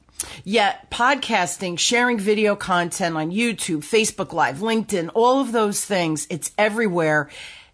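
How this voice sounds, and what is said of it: Distinct New Jersey accent. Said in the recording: “my very distinct Jersey accent”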